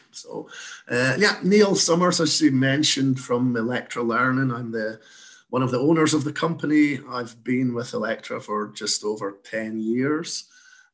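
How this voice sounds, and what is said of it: Slight Scottish accent. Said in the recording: “you may detect I've got a slight accent. ... I'm originally from Scotland”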